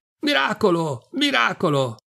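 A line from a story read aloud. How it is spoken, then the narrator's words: Delirious crowd shouting. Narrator (Italian): la processione che va gridando in delirio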